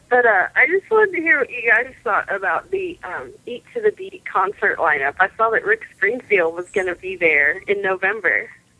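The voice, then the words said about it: Hoarse, sick-sounding voice. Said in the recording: “sorry about my voice. ... You sound like you have a cold ... I've got bronchitis.”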